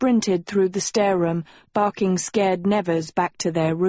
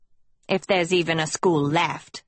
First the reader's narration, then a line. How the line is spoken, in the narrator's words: Hester snapped